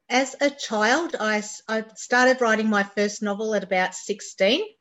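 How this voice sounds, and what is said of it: Australian accent. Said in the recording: “do I detect a little bit of Australian accent? ... Yes, a completely Australian accent.”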